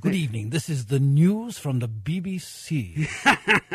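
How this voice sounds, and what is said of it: Exaggerated British BBC newsreader accent. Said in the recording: “some of that British accent of yours? ... I can do a very extreme one.”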